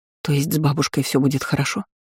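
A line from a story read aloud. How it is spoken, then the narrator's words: Whisper with rising fury. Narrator (Russian): Шепотом спросила, ощущая разрастающуюся в груди ярость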